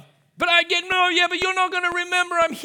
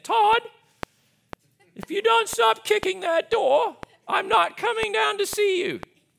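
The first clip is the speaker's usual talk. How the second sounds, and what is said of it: Imitates mother, posh Australian accent. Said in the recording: “in a nice Australian accent ... She sounds like the queen.”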